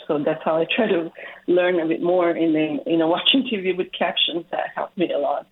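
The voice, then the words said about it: Non-native English accent. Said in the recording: “not having that proper grammar, you know, base to learning English, sometimes you can tell. I mean, you can tell by my accent.”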